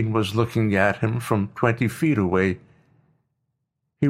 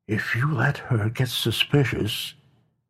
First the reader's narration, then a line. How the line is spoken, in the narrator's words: whispered words directly in his ear